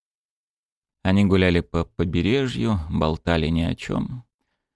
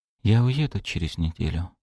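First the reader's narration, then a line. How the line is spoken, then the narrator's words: Whisper. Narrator (Russian): прошептала она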